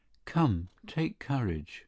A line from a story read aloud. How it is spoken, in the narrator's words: he stood facing her, uneasy and not knowing what to say, and he merely murmured